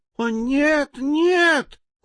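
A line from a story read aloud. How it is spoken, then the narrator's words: Squeaking mice chorus. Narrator (Russian): хором запищали мыши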